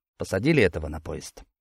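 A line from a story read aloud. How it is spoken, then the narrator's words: Quiet question. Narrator (Russian): негромко спросил я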